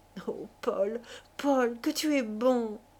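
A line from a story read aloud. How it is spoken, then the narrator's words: Sobbing. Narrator (French): elle se mit à sangloter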